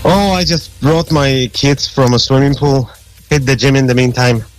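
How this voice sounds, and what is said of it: Polish accent. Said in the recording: “Where's that accent from? ... That's an accent that I can't get rid of. It's from Poland. ... Polish, right ... you haven't lost your accent at all”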